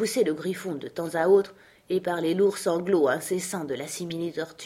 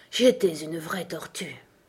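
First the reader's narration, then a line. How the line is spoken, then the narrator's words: Deep sigh. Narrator (French): dit enfin la simili-tortue en poussant un profond soupir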